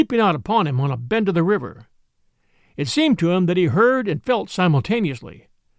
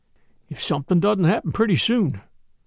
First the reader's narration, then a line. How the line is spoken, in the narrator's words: he muttered at the end of half an hour